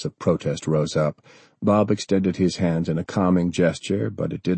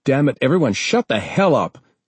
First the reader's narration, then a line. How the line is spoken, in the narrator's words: John snapped out sharply